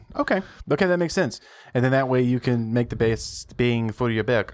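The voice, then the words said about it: Briefly slips into a put-on accent. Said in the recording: “I don't know why I went into that accent”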